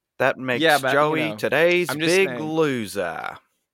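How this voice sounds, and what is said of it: Put-on Australian accent. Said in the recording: “I always say that in an Australian accent. ... You know how offended I am by that Australian accent.”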